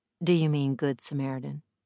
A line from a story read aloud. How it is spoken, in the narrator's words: asked dryly